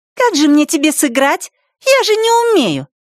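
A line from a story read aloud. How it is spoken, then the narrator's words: Snide shout. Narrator (Russian): ехидно выкрикнула в ответ Ева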